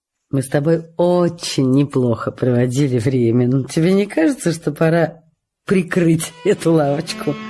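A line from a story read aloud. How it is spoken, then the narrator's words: Light joking tone, hidden anguish. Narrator (Russian): Джулия говорила таким естественным, даже шутливым тоном, что никто и не заподозрил бы, какая невыносимая мука разрывает ей сердце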